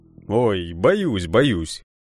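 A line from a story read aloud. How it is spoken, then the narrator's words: Laughing. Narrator (Russian): рассмеялся Карпов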